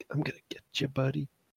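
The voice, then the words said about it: Whispering. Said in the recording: “Why would you be whispering at me? That's weird.”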